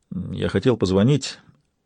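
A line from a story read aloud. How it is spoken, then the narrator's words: Muttered. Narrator (Russian): пробормотал Майрон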